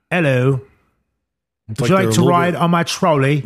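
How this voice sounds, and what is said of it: Put-on New Zealand accent. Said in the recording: “New Zealand accents are a little bit... They're like zanier... That's closer”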